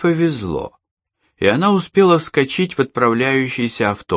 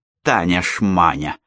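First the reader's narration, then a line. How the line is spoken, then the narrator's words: Angry, under her breath. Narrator (Russian): зло сказала она про себя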